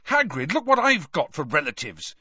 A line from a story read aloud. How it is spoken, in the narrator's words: Harry said furiously